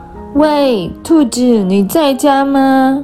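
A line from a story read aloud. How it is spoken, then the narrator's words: Loud shout at door. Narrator (Chinese): 不知道是谁在门口大叫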